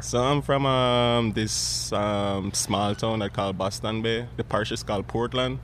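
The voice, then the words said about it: Jamaican accent. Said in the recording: “They can't tell that I'm from Jamaica... as soon as I open my mouth in front of a customer, they're like, "Oh, so I'm trying to figure out where your accent is from."”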